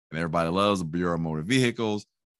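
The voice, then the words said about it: Sarcastic delivery. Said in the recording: “I say that sarcastically”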